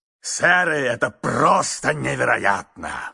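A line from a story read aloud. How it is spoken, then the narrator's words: Booming shout. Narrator (Russian): кричал он зычным голосом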